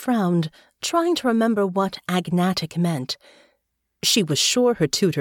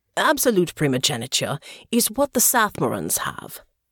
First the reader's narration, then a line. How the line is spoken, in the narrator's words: Father said